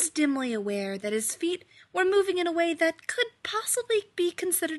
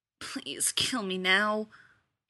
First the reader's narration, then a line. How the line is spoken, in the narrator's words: he muttered